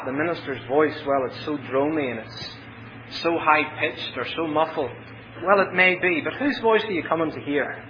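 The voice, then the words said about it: Ulster accent. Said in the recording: “my beautiful Ulster accent”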